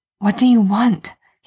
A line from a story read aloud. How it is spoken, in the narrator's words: he hisses